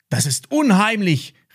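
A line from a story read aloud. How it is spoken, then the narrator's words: Frightened calling out. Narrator (German): rief Max, während er sich hinter Ben versteckte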